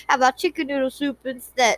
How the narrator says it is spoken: He laughed

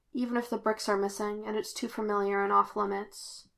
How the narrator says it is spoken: said quietly

